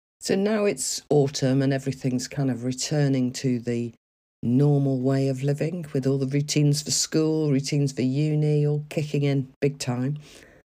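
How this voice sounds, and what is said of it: Croaky, hoarse voice. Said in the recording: “my voice is a bit croaky today, and that's because I have had COVID and am now supposedly recovered, but left with a bit of a croak”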